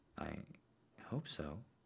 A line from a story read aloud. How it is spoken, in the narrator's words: he whispered